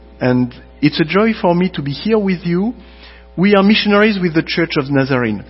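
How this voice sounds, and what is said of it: Slight French accent. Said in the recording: “I have a very slight French accent ... my foreign accent ... I do have an accent.”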